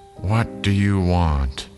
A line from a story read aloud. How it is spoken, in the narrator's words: An old woman answered in a tired voice